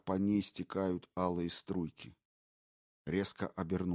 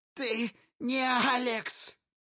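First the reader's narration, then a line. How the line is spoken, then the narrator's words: Shouting. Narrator (Russian): закричала Элси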